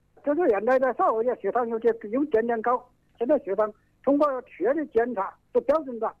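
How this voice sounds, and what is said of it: Regional Hubei Chinese accent. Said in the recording (Chinese): “我听你的口音，你是哪里人啊？ ... 湖北松竹华侨的啊，华侨镇的人。”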